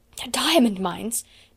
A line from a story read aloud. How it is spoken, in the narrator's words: Miss Minchin gasped out